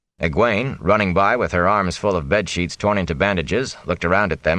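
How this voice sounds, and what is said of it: Usual voice. Nothing is said of it.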